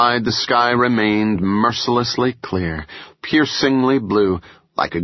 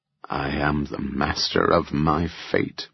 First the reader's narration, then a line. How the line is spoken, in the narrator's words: Beau muttered